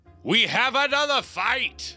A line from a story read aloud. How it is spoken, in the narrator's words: they both yell out in unison